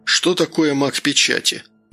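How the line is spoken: Listless, glum question. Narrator (Russian): вяло спросил Данил, уныло

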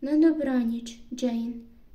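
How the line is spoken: Calm. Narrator (Ukrainian): відповів спокійно

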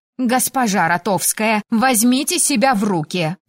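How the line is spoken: Barked. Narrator (Russian): рявкнула леди Вероника

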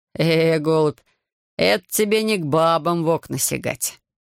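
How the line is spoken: Silent convulsive laughter. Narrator (Russian): зашелся Петерис беззвучным хохотом

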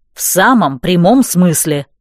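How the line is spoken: Irritated grumble. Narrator (Russian): раздраженно буркнул

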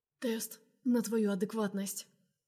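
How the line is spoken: Ragged hoarse rasp. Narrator (Russian): хрипит рвано

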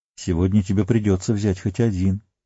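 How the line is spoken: Soft but insistent. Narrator (Russian): мягко, но настойчиво проговорил Гэндальф

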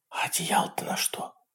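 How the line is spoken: Whisper. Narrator (Russian): прошептала Дженнис

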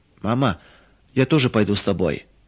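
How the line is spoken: Tearful whisper. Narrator (Russian): чуть не плача прошептала Маруся

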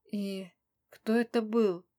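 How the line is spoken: Muffled question. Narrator (Russian): спросила глухо

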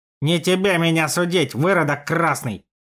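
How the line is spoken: Angry hiss. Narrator (Russian): зло прошипел Степан

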